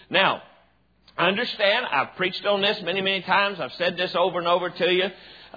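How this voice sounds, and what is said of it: Hillbilly accent. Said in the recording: “the hillbilly accent”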